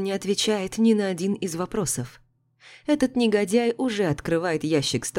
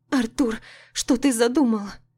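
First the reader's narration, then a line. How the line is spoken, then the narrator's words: Slightly trembling question. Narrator (Russian): Спрашиваю чуть дрожащим голосом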